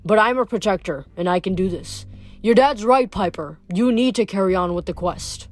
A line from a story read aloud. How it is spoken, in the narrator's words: The coach grunted